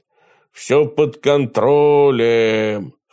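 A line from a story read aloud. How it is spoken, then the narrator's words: Hoarse report from mast. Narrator (Russian): хрипло доложила с мачты ненастоящая чайка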